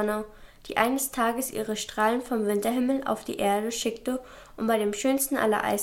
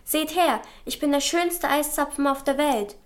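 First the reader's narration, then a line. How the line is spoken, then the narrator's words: Calling out proudly. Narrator (German): rief voller Stolz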